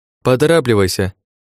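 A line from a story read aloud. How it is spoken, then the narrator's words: Shouting over helicopter noise. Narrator (Russian): прокричала Ухара, пытаясь перекрыть гул от лопастей вертолёта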